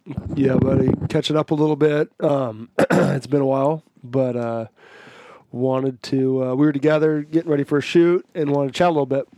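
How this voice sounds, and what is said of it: Voice slightly off, under the weather. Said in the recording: “My voice is a little bit different, kind of. I'm not sick now very much, but I've been a little bit under the weather”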